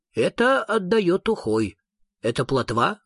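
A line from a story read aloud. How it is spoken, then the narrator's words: Plain. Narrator (Russian): спросил супротивка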